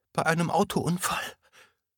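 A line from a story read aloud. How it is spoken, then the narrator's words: Sobbing. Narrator (German): fuhr Emma schluchzend fort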